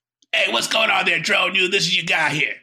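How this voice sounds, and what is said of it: Put-on different voice. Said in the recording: “I'm going to bring it to you in a different voice.”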